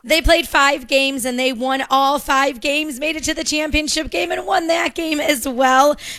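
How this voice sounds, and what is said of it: Hoarse, worn-out voice. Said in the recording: “kind of lost my voice ... my voice is a little exhausted as well”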